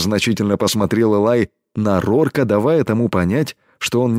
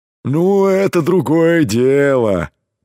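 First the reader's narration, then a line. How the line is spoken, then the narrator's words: Deep bass voice. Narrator (Russian): пробасил Кром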